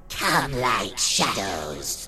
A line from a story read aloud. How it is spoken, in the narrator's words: witch hissed